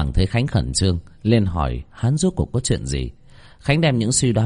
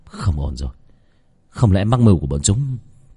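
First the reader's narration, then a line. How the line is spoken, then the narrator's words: Trembling stammer. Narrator (Vietnamese): Toàn thân của Khánh run rẩy, Khánh lắp bắp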